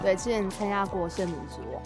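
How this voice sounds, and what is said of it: Speaking suddenly very quietly. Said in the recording (Chinese): “你怎么突然变那么小声？...我突然太小声了”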